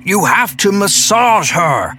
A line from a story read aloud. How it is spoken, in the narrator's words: Stan shouted even louder than before